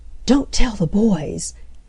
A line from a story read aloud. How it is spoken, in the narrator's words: Nan whispered to Mildred